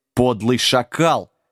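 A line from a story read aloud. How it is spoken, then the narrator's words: Growl. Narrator (Russian): зарычал он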